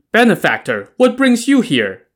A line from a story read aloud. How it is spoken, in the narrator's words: immediately called out